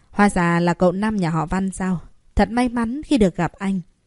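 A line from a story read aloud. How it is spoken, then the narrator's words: Cold man's voice. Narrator (Vietnamese): Người đàn ông lạnh lùng nói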